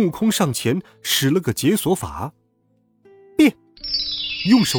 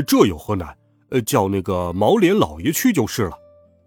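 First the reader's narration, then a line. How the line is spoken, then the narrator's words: Laughing. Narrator (Chinese): 八戒笑道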